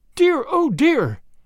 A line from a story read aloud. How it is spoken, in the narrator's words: exclaimed Grandma wildly